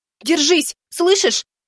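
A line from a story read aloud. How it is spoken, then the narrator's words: Shouting. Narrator (Russian): кричала Ай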